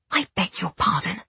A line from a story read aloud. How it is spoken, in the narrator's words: I whispered harshly, not particularly enjoying the casual use of my surname he kept tossing about